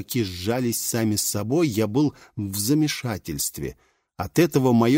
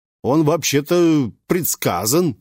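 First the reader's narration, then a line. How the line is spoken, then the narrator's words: Barked. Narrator (Russian): рявкнул герцог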